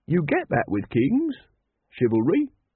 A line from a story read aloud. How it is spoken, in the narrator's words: said Brother Watchtower happily